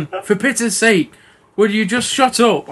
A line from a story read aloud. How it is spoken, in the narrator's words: I screamed one evening from the tub